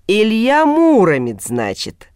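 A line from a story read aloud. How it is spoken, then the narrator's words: Savoring drawl. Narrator (Russian): протянул Нагай, словно пробуя богатырское имя на зуб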